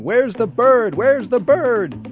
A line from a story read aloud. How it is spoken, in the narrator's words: They start screaming